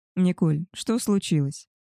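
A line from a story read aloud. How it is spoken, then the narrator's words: Soft question. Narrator (Russian): мягко спросил Давид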